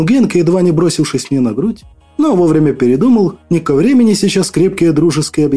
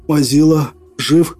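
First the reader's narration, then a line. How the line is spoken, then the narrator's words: Strained hoarse rasp. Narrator (Russian): Прохрипел я, с трудом проталкивая слова в глотку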